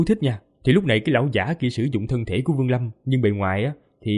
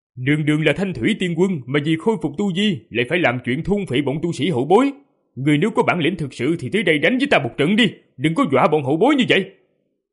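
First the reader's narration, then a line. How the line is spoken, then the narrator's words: Loud shout. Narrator (Vietnamese): Vương Lâm ... miệng quát to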